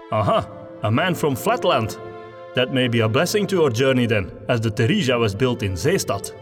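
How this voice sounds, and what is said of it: West Flemish-accented friendly, authoritative captain. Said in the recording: “West Flemish ... So I had to try to do an accent that is not my own after all. ... It makes Brokelhoff sound like a friendly, approachable sort of captain, while still projecting authority when necessary.”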